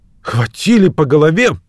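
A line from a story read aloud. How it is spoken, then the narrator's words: Exclaiming. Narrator (Russian): воскликнул Кэмп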